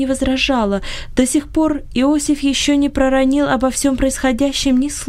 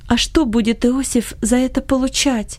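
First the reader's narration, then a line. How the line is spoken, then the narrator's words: Timid question. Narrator (Russian): робко спросила его мать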